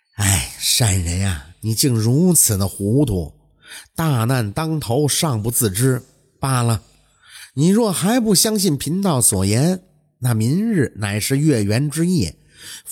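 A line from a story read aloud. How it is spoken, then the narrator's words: Sighing. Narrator (Chinese): 道人叹息说道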